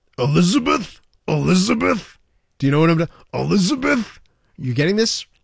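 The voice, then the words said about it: Imitates another person's voice. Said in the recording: “I'm going to do a voice here... It's Randy Macho Man Savage... You sound like what's his name from that cartoon in the 70s... That's your Macho Man?”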